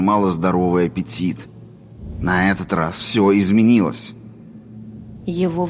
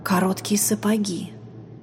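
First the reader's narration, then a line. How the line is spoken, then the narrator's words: Inner whisper. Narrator (Russian): прошептал ее разум ее разуму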